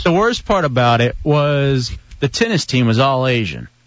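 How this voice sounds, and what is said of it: Big deep radio announcer voice. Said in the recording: “practicing on my big, bad radio voice ... Radio voice.”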